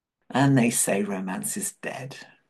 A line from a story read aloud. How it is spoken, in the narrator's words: Rodney said with a chuckle, even though he was moved by John's words